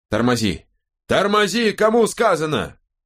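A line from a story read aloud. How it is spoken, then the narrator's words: Yelling. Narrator (Russian): заорал Чизуэлл шоферу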